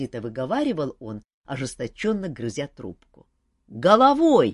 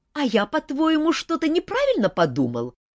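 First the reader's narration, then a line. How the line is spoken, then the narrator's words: Snapping retort. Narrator (Russian): огрызнулся принц Орландо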